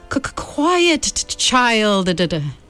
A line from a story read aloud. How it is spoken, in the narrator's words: Witch's authoritative voice called out